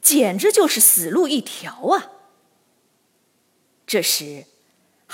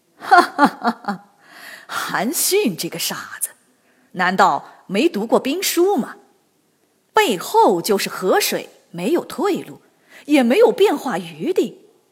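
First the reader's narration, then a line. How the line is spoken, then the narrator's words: Loud laughter. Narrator (Chinese): 陈馀哈哈大笑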